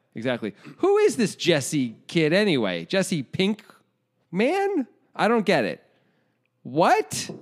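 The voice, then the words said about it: Clumsy impression of a confused viewer. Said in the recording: “That was a really bad impression of somebody who doesn't know what's going on.”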